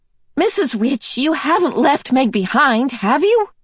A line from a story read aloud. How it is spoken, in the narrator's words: Charles Wallace shouted